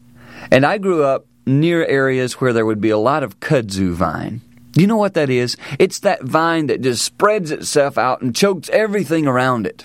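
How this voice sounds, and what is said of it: American Southern accent. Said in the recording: “I grew up down south, as you can tell by my accent”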